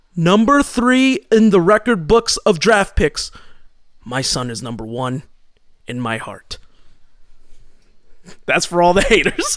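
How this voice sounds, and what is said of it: Proud, angry father promo voice. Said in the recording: “you sound like a proud and angry father ... like a Ric Flair promo”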